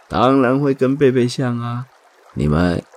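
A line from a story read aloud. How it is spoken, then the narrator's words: Father, laughing. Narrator (Chinese): 爸爸笑着说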